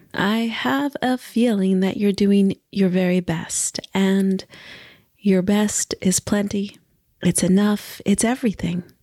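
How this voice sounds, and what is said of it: Slightly strange, congested voice. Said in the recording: “my voice is a little strange ... my sinuses are at a high”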